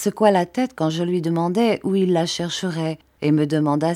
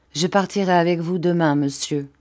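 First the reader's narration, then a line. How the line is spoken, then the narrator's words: Plain. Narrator (French): dit-il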